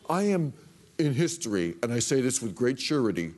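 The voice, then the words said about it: Weak Donald Trump impression. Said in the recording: “Not a great impression.”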